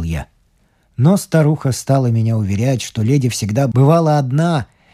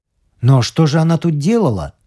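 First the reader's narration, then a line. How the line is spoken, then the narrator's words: Exclamation. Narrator (Russian): воскликнул я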